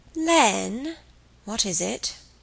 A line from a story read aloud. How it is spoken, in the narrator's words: he asked, a little wearily